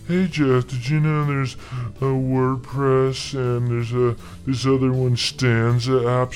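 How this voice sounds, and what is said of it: Imitates another person's voice. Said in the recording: “That was my Todd impersonation. ... That was eerie. ... It was hard to tell who was who.”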